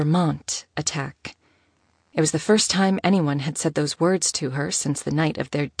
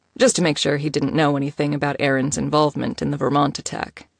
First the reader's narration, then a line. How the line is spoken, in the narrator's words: Nico answered, his tone casual